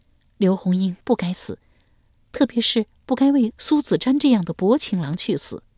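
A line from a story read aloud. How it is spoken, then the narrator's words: Sighing. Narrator (Chinese): 九哥叹道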